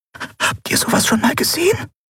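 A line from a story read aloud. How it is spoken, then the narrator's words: Breathy whisper. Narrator (German): hauchte Nelen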